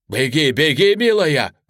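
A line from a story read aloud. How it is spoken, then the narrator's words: Shouted. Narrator (Russian): крикнул я дочери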